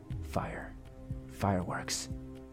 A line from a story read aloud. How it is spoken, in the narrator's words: William muttered